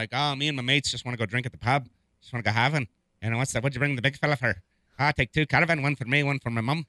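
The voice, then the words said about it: Put-on Irish accent. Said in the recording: “I was doing an Irish accent”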